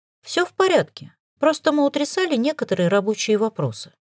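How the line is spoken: Calm. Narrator (Russian): спокойно сказала

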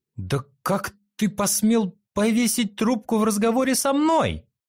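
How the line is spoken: Indignant shouting. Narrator (Russian): кричала Юй-Юй, когда увидела, как потух экран

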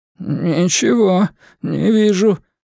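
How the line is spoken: Trembling, forced out. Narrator (Russian): дрожащим голосом выдавил Шпиндель

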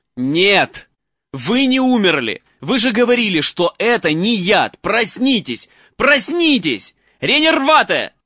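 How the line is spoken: Shouting. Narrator (Russian): Закричал он

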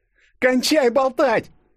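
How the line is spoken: Hedgehog shouting. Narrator (Russian): закричала ежик

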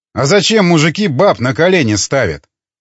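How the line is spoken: Scoffing. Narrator (Russian): хмыкнул Волков

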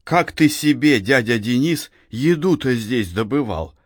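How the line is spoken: Plain. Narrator (Russian): спросил Максим

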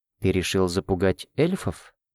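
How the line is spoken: Whispered clarification. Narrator (Russian): шепотом уточнила

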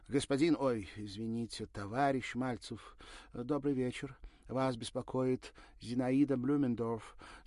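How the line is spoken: Slight accent. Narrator (Russian): с легким акцентом произнесла Ирина

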